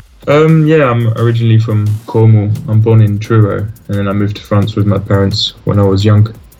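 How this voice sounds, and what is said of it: English accent. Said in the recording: “you have a deceiving English accent.”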